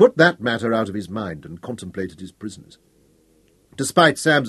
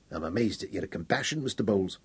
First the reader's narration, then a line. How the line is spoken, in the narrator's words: Cumbrey grunted